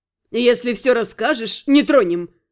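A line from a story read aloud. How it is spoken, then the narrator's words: Hoarse laugh. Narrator (Russian): хрипло хохотнула Вайда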